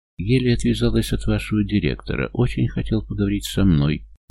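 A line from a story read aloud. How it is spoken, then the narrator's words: Muttering. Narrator (Russian): бормочет она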